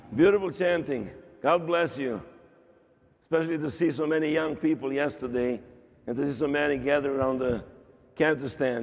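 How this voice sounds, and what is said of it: Hoarse, strained voice. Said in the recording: “lost my voice. I've been talking every week for the last 14 months for about 8 hours per weekend. So I'm losing my voice,”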